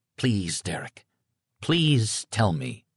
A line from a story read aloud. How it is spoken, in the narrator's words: I said in a soft voice, just short of despair